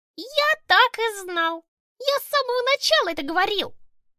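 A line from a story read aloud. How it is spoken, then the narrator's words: Squeak. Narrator (Russian): Пропищал Тимоха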